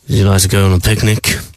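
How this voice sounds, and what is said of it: Fake seductive French accent. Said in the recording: “just doing my French voice to be sexy”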